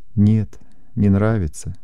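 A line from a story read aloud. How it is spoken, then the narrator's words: Heavy sigh. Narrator (Russian): тяжело вздохнула Даша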